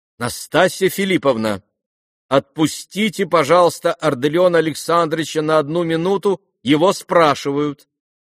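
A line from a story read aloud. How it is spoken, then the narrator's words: Loud woman. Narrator (Russian): громко сказала Нина Александровна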